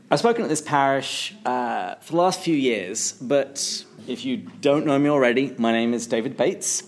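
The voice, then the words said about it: English accent. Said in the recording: “I'm originally from England, which is how I have this lovely accent.”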